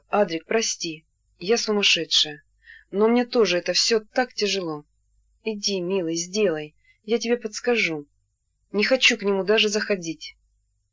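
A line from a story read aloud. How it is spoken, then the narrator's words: Quiet, tearful. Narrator (Russian): вдруг она тихо, сквозь слезы, сказала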